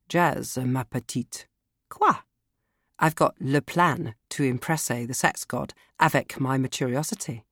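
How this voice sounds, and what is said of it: Put-on French accent. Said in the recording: “you have to speak with a French accent”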